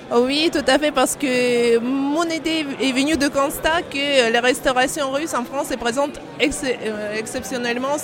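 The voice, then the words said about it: Russian accent speaking French. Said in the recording (French): “on l'entend par votre accent. A priori, vous êtes russe”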